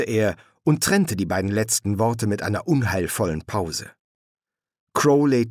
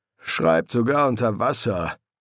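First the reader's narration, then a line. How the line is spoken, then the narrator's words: Murmured. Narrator (German): murmelte Crowley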